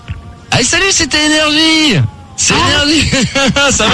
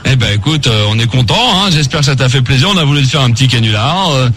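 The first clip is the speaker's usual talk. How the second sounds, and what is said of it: Disguised voice for a prank. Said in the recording (French): “Je reprends ma voix ... j'ai pas ma voix”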